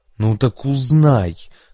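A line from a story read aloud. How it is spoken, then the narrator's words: Hissed through teeth. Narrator (Russian): прошипел сквозь зубы Энрике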